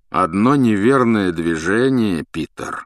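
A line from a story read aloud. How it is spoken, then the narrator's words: Menacing warning. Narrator (Russian): грозно предупредил Люпин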